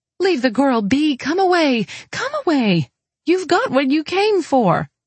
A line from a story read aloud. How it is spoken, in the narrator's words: From outside, a woman cried